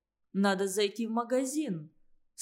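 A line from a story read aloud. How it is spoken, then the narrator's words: Calm suggestion. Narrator (Russian): спокойно предложил Андрей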